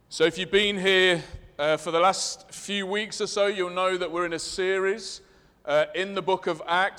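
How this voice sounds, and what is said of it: Leicester English accent. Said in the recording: “I'm aware of my Leicester accent. It might be confusing.”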